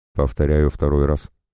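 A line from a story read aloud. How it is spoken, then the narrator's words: Completely calm. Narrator (Russian): совершенно спокойно проговорил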